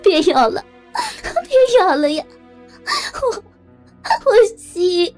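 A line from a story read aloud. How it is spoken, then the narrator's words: Anguished crying out. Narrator (Chinese): 实在没有办法继续承受这种折磨了，他扶书般的哭喊道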